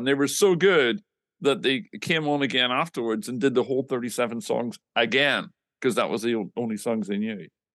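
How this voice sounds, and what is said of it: Northern Irish accent, somewhat softened. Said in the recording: “this accent ... my accent's been heavily modified over the years, but it does happen. Noticeably Northern Ireland.”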